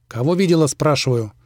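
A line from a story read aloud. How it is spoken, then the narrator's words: Barked loudly. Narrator (Russian): рявкнул он так, что девчонка аж подпрыгнула от неожиданности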